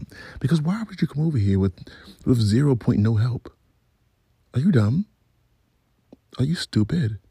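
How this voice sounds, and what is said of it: Natural accent slipping out. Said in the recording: “Y'all just heard my accent. ... it comes out randomly.”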